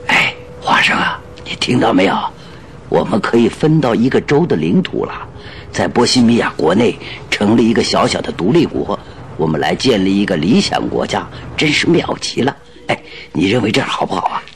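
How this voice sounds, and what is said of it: Quiet whispered speech. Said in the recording (Chinese): “把嘴凑在华生的耳朵边小声地说”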